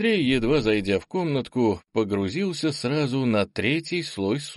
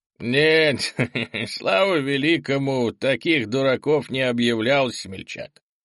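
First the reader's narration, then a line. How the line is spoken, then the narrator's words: Fawning chuckle. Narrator (Russian): Подобострастно хохотнул владелец омута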